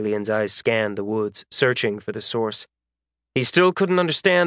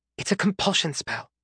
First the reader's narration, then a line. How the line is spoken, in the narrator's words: Lydia hissed